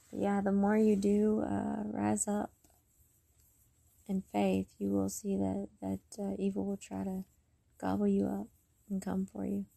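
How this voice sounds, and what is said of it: Tired-sounding voice. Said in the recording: “I'm tired. So if my voice sounds like this”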